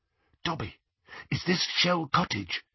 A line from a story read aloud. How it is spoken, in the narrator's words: he whispered